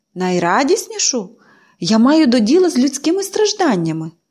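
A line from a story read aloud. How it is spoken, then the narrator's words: Exclaimed. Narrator (Ukrainian): вигукнув він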